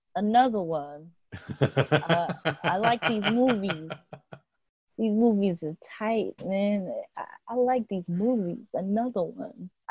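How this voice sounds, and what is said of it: Good DJ Khaled impression. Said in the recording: “That was a pretty good impression for someone who doesn't know anything about DJ Khaled.”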